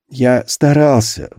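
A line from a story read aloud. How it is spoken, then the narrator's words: Sigh. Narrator (Russian): вздохнул Антон Семенович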